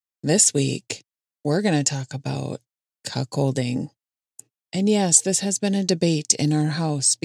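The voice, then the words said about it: Minnesota accent. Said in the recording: “it sounds like I'm saying cuckolding ... It's just the way my Minnesota accent sounds.”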